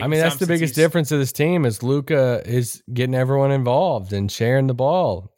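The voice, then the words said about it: Sarcastic delivery. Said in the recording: “being sarcastic... That's sarcasm, guys.”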